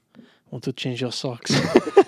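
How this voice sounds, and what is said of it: Imitates another person's voice. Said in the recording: “great John Turturro impression”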